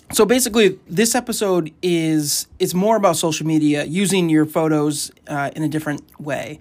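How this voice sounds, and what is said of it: Hoarse, strained voice. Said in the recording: “I lost my voice, so ... I didn't want the quality of my voice to be so poor.”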